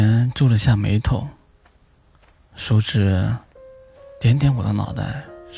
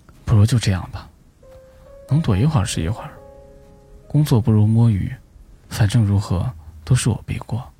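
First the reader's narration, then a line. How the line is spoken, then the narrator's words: Long sigh, self-pitying resignation. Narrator (Chinese): 我长长叹了一口气，委屈的 自暴自弃道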